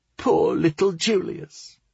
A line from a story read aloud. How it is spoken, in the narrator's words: He made an exaggerated bawling sound